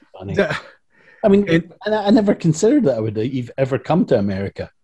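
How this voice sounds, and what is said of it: Scottish accent. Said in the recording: “you're from Scotland and have an accent”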